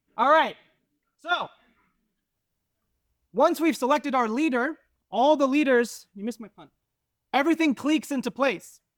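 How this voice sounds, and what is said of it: Loud, yelled teacher voice. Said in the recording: “I'm just gonna yell ... All right, so I'm gonna yell. This is my teacher voice.”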